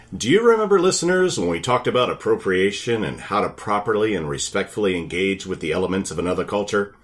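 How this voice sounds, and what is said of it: Moderate radio announcer voice. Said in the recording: “Radio Voice ... Not full, intense radio voice.”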